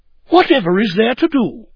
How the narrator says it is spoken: The shoemaker's wife was astonished, and in her astonishment exclaimed

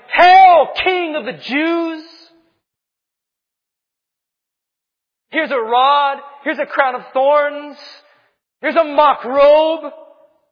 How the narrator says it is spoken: It was sinful men shouting

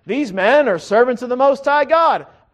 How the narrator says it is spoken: this spirit-possessed woman keeps yelling

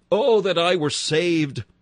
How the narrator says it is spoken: We cried out

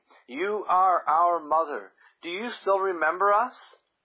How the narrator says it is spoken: exclaimed

